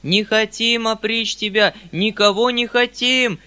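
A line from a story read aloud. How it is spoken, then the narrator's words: Men yelling in chorus. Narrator (Russian): завопили вдруг мужики целым хором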